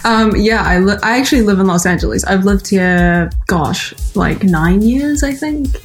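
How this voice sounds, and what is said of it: New Zealand accent blended with Valley girl. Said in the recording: “hearing your accent now ... my accent is not as thick as it used to be ... my accent because it's like a hybrid of LA gal, Valley girl, and like, you know, Auckland”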